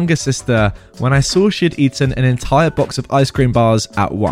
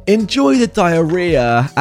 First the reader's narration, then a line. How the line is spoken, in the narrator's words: yelling